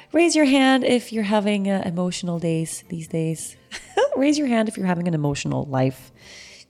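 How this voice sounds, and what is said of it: Stuffy, sniffly voice. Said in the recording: “I sound a little stuffy or sniffly, it's because I spent the entire morning crying.”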